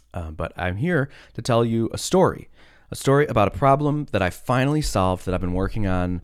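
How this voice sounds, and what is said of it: Unusually deep voice, sick. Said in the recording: “I have a very deep voice right now because I have some sort of cough thing”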